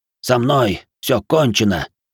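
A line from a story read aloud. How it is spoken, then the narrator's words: Wheezing, dying. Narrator (Russian): прохрипел прокушенный лист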